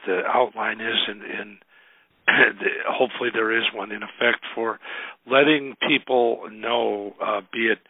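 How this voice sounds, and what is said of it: Rough, sick-sounding voice. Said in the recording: “excuse my voice, I hear I'm just hopefully getting over a horrible three-week cold”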